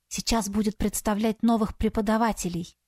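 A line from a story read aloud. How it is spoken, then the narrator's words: Whispering. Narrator (Russian): шепнула Саяри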